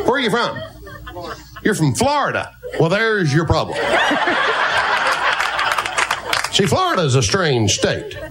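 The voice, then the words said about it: Southern US accent. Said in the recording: “Southern accents ... says he can do about a dozen different Southern accents”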